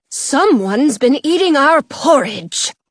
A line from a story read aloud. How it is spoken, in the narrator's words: the mother bear growls